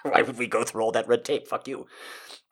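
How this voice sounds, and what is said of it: Put-on German accent. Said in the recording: “my German impression.”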